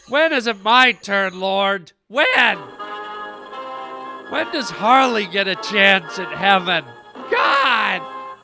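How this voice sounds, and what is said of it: Emotional, overwrought pleading voice. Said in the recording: “I'm getting emotional.”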